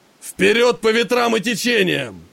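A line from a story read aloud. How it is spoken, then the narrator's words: Roaring. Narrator (Russian): проревел Гектор на весь корабль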